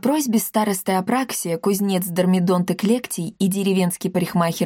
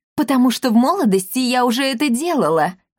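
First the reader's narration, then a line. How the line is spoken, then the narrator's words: Exclamation. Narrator (Russian): воскликнула мадам Бина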